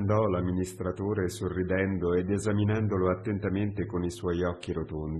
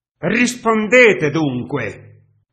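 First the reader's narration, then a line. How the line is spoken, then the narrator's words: Editor shouting. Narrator (Italian): gridò il redattore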